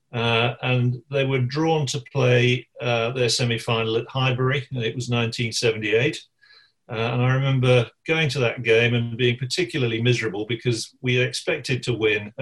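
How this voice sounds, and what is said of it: West Bromwich English accent. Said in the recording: “I was born in West Bromwich. You can probably tell from my accent.”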